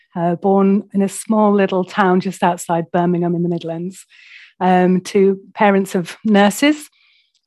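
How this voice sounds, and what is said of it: British accent. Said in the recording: “I'm in the UK. I don't know if the accent gives that away.”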